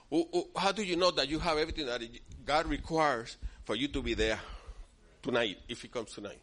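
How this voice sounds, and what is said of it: Speaks with a noticeable accent. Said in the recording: “my voice is different. My frequency is different. You know, I got an accent.”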